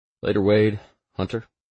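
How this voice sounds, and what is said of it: Slow drawling delivery. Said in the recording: “drawl”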